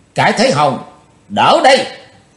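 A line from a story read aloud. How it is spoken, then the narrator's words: Shouting. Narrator (Vietnamese): Chí Tôn đàng thét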